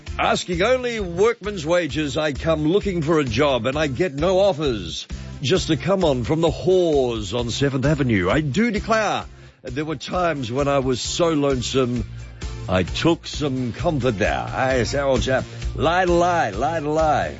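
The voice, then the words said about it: Put-on British accent. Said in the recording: “recite this song in a British accent.”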